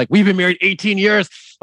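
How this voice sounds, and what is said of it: Imitates another person's voice. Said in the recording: “That was a good impression of Casey”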